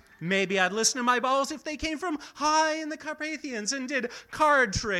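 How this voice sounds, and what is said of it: Usual voice. Nothing is said of it.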